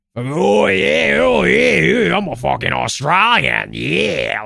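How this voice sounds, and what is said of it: Thick bogan Australian accent. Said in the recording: “that fucking thick, fucking bogan”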